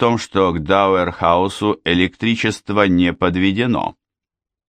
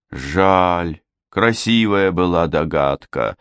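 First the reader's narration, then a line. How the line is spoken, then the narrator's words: Sighing. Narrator (Russian): вздохнул сержант Уэйк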